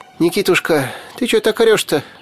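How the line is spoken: Frightened. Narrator (Russian): Испуганно отшатнулась Яга

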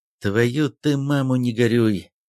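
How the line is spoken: Relieved or annoyed exhale. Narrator (Russian): выдохнул не то с облегчением, не то с досадой Сосновский

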